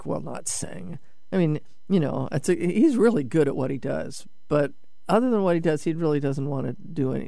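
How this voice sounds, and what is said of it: Slightly nasal voice from a cold. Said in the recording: “I still have a little of this nasal stuff from this cold thing”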